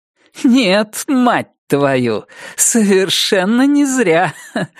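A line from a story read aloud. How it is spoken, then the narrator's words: Dismissive laugh. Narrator (Russian): проговорила она и пренебрежительно хохотнула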